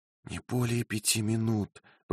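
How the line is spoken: Whispered. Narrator (Russian): прошептала Розамонда

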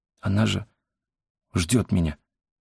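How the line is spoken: Barely audible whisper. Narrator (Russian): еле слышно прошептал Энсок

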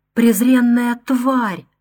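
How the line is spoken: Groaning. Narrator (Russian): стонал герцог

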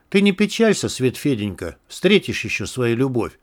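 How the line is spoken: Tender, slightly sly. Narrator (Russian): ласково и чуть лукаво сказала Алена

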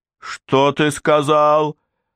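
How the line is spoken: Yelling. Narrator (Russian): заорала Маган Лид

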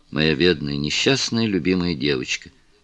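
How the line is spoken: Tender. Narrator (Russian): нежно произнес лорд Мельбурн

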